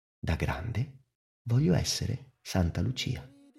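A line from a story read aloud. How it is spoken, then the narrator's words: Drowsy, very soft. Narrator (Italian): Mentre i suoi occhi si stavano per chiudere, disse piano piano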